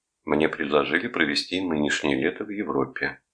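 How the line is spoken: Even tone. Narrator (Russian): ровным тоном сказал Рудольф

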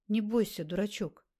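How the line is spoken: Gentle reproach. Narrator (Russian): ласково укорила Альбина

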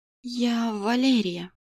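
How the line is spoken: Whisper. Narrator (Russian): прошептала зачем-то

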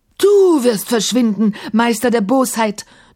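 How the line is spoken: Thunderous wall-shaking roar. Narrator (German): donnerte Kafur so laut, dass die alten Mauern erbebten

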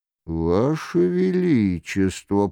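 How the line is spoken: Grumbling. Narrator (Russian): проворчал Шико

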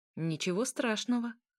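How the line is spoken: Plain. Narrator (Russian): ответил вампир

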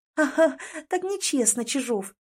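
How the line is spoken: Silent giggling. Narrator (Russian): Беззвучно хихикает

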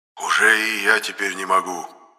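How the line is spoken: Quiet wheeze. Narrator (Russian): тихо просипел Енох

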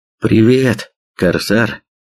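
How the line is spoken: Mumbled. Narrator (Russian): промямлил сталкер

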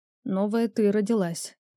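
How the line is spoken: Muffled hollow voice. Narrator (Russian): голос Рионара прозвучал глухо

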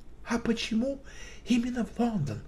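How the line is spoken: Whispered question. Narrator (Russian): шепотом спросил Шерлок

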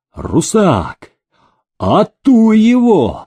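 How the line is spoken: Excited distant yell. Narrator (Russian): загораясь охотничьим задором, заорал в соседнем экипаже Никита Акинфеевич

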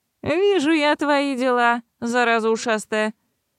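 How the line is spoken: Smirking. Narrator (Russian): хмыкнул этот Фрэнсис

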